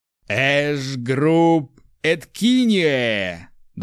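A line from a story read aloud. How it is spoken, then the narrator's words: Fairly loud. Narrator (Russian): довольно громко произносит проверяющий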